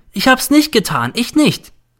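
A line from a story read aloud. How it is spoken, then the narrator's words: Shouting. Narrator (German): schreit der N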